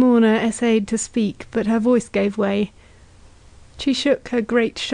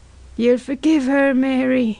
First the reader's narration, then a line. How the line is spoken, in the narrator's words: pleaded the woman in black